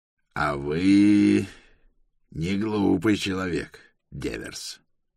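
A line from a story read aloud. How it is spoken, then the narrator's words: Through gritted teeth. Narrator (Russian): процедил сквозь зубы Риас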